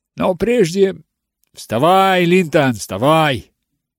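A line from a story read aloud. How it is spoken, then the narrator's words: Roaring. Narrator (Russian): проревел он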